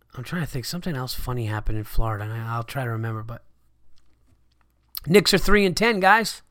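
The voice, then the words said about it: Sick-sounding voice. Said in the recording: “Excuse my voice. I'm a little sick.”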